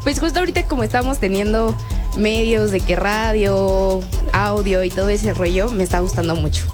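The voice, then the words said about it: Radio announcer-like voice. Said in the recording (Spanish): “tienes voz de locutora”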